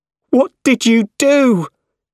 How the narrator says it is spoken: He shouted

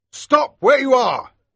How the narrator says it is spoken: cried one soldier

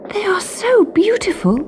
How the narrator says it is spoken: she gasped

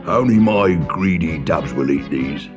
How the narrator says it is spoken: he grunted

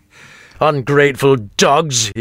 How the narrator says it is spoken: he growled

